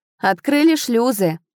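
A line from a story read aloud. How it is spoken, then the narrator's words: Shouted reply. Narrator (Russian): прокричал в ответ Рейн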